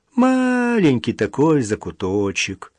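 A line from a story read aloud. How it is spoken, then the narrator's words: Drawling. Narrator (Russian): протянул Петр Васильевич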